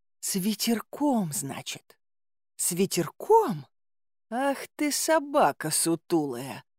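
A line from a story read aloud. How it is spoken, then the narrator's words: Mutter. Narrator (Russian): пробормотала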